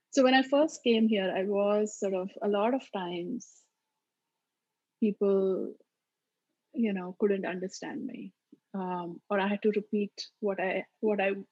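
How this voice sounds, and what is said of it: Maharashtrian Indian English accent. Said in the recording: “I sound, a lot of times my kids will say, Mom, you don't even sound Indian because I speak the way I speak my mother tongue ... my mother tongue, which is Marathi, this is the way we speak. So it's not even your typical quote unquote Indian accent. It's much more sort of Maharashtrian accent.”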